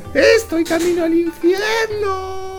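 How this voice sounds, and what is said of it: Little girl's voice. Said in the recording (Spanish): “voz de niña”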